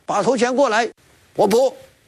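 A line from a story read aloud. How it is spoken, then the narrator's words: Shouting. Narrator (Chinese): 李逵叫道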